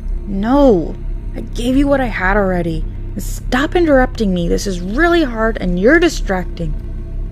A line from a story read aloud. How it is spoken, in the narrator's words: Blaine said through gritted teeth